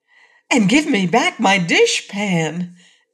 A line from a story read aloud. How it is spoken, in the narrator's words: added the Cookie Cook eagerly